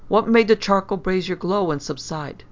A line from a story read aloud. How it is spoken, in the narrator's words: I exclaimed in astonishment